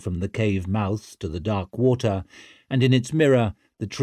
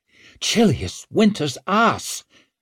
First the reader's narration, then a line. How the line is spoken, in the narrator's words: she gasped